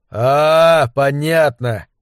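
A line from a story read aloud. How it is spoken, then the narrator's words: Drawn-out drawl. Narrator (Russian): протянул Зобер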